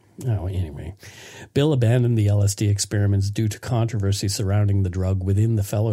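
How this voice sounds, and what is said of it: Usual voice. Nothing is said of it.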